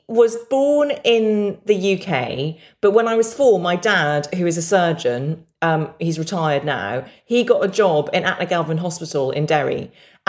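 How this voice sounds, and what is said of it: English accent, not Northern Irish. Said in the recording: “as you can hear, and as you've alluded to, I never picked up the accent ... I am the weird English cousin”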